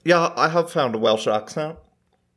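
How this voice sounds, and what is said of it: Poor attempt at Welsh accent. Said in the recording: “Welsh accent ... Welsh is not an accent I know well, and I know that's wrong ... It just sounds like you have something in your mouth that you're trying not to drop while you talk ... Scottish anyway”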